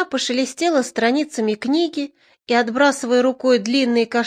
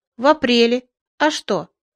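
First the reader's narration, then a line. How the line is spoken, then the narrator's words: Calm. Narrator (Russian): Не подозревая подвоха, я сказал спокойно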